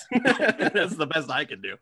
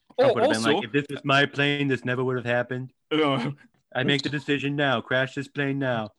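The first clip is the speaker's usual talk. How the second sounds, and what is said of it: Imitates another person's voice. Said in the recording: “good impersonation of Alec Baldwin doing an impersonation of Donald Trump”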